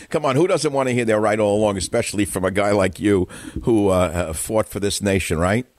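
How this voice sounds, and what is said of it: Brooklyn New York accent. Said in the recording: “You talk like you're from Brooklyn. ... a New York accent”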